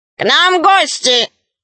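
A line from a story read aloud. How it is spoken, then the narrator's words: Loud, robot. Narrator (Russian): робот-художник громко сказал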